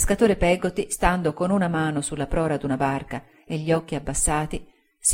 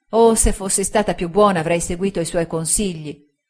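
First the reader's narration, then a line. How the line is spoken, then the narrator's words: Girl, desperate regretful exclamation. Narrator (Italian): esclamò la ragazza con disperato rimpianto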